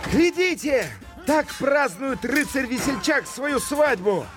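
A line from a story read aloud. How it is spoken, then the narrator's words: Loud shout. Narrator (Russian): И он громко крикнул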